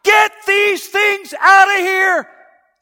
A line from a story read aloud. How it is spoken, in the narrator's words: shout